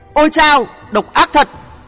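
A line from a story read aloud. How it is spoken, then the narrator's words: Pained staggering shout. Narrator (Vietnamese): bị trúng vào vai đau buốt, khiến ông ta liềng xiềng hét lên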